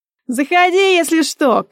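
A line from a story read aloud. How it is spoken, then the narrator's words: Shouted after someone. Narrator (Russian): крикнула вдогонку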